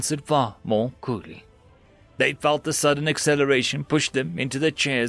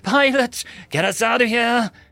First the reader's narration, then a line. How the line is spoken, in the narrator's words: her voice quivered with emotion as she yelled